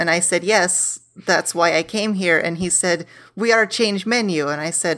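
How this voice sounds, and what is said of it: Usual voice. Nothing is said of it.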